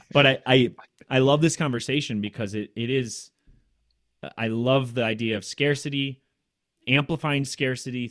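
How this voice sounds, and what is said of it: Loud, excited speech. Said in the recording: “my voice gets loud, it means I'm getting excited”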